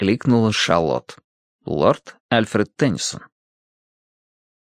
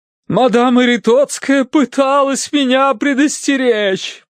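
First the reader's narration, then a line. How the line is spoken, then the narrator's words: Moaning woman. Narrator (Russian): простонала миссис Меринг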